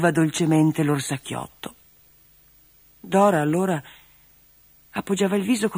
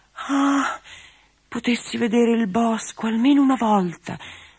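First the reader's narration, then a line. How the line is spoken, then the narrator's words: Sighing. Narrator (Italian): sospirava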